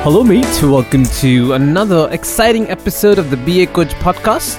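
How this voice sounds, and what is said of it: Attempted British accent. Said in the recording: “that's how far I can try to imitate the British accent.”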